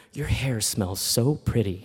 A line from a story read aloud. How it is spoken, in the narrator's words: I whisper in her ear